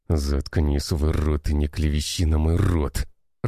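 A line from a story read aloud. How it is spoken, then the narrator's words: Growled. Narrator (Russian): рыкнул тот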